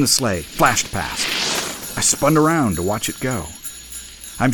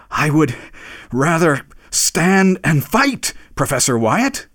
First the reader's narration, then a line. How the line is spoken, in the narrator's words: he panted as he said it